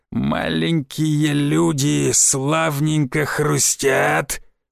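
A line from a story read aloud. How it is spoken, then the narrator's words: Hoarse singing. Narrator (Russian): Начал напевать он песню хриплым голосом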